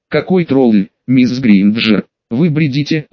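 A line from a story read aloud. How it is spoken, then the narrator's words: Sweet, smiling tone. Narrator (Russian): Ласково улыбнулась Амбридж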